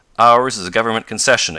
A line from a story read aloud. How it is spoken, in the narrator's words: exclaimed Professor Hylop harshly